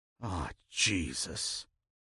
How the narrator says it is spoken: Jonathan moaned

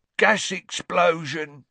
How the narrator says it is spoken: grunted Ernie

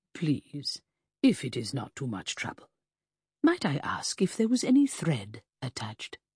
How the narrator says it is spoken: my guardian inquired meekly

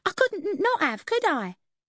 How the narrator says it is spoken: She cackled

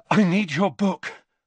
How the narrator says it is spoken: Harry panted

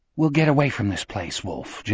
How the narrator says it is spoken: Jack had whispered into his ear

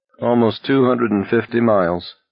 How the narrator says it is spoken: Pearson groaned

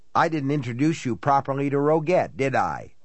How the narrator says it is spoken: he said

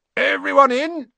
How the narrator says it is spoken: shouted Hagrid

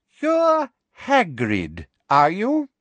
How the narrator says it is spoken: she said, slowly and loudly, as though speaking to somebody deaf

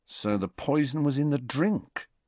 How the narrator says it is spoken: said Fred quietly

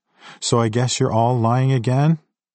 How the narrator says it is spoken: Her sigh seemed to drain the life out of her

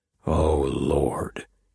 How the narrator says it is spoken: Gideon muttered

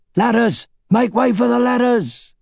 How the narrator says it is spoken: shouting

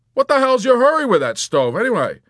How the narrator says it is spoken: he barked out a moment later in spite of himself

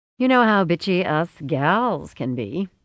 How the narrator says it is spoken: Rosie said and laughed

